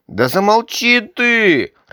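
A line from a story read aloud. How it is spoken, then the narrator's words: Irritated child cutting in. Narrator (Russian): раздраженно оборвал его малыш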